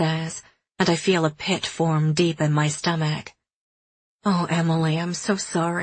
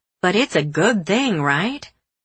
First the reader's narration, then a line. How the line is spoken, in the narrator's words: She says sarcastically